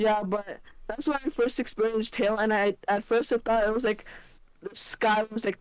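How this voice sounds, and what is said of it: Usual voice. Nothing is said of it.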